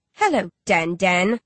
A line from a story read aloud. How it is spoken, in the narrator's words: sneer